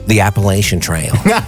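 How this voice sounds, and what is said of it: Heavy put-on American accent. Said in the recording (Dutch): “echt op zijn zwaar Amerikaans, met een Amerikaans accent.”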